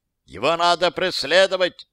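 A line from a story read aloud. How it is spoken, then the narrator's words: Shouted. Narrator (Russian): закричал Зайдлер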